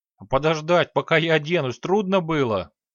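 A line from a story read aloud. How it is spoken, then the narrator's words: Displeased grumble. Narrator (Russian): недовольно проворчал Тинувиэль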